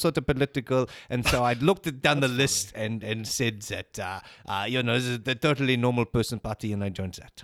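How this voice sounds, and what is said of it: Austrian-accented English. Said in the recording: “You even like sound like you're just putting on a German accent or something. ... it's not even a German accent; it's an Austrian accent.”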